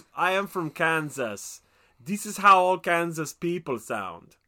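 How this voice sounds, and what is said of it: Imitates another person's accented voice. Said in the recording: “I don't know what his accent is. ... Tommy Wiseau”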